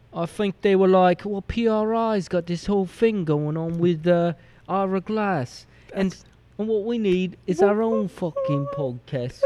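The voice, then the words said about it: Put-on accent. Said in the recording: “That's the best accent I've ever heard you do. ... I was just so enamored with your accent.”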